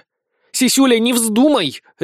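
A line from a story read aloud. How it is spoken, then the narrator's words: Bark. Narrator (Russian): рявкнула Безос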